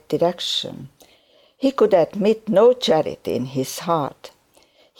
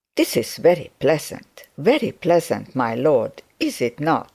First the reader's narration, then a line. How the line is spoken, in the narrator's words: said Mr